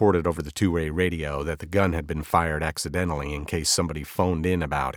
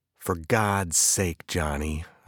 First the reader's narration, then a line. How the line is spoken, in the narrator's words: I said slowly